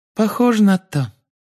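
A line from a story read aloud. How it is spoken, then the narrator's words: Squeaky voice. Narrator (Russian): Полумны Лавгуд, которая пропищала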